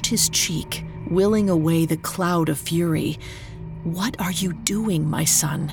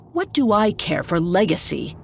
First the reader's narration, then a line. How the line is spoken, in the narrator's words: He snapped